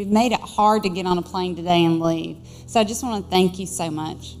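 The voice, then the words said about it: Southern American accent. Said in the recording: “a little Southern dialect”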